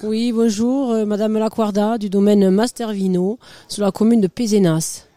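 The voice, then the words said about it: Pronounced regional French accent. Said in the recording (French): “Comme l'accent. ... J'ai un accent prononcé.”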